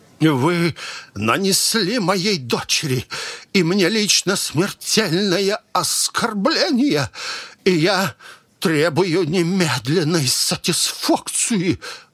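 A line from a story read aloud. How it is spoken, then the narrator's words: Quiet, slow, strained with terror. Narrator (Russian): Выговорил он тихо и медленно, отдав, кажется, последние силы, дабы не сорваться на фальцет или не разрыдаться от ужаса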